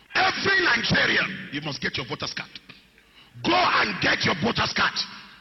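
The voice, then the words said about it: Strong, hard-to-understand accent. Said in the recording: “if you had a little bit of difficulty understanding the accent that's present”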